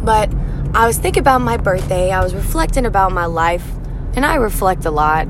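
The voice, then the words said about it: Hoarse, strained voice. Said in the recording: “Excuse my voice ... it is a little bit hoarse ... my voice is kind of gone now”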